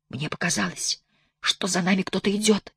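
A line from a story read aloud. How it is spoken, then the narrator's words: Female whisper. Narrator (Russian): прошептала она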